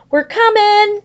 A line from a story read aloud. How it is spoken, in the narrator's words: shouted